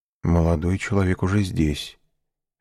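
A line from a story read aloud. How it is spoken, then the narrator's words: Quiet reply, manservant. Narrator (Russian): ответил также тихо камердинер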